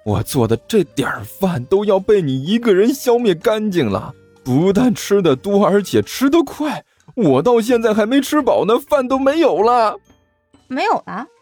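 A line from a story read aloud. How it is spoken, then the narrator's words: Despairing, near tears. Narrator (Chinese): 甘球欲哭无泪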